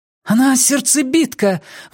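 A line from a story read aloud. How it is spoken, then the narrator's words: Exclaiming. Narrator (Russian): воскликнула Нина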